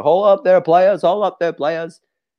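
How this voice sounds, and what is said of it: Imitates another person's voice. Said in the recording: “It's a hard impression ... That was cracking me up with an impersonation of him”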